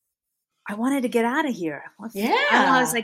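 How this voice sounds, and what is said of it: Usual voice. Nothing is said of it.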